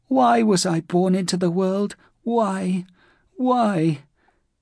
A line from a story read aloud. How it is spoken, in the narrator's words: that voice that was like the whining of a dog